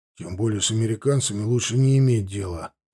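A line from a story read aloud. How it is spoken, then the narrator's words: Grumbling. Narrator (Russian): проворчал Пинчук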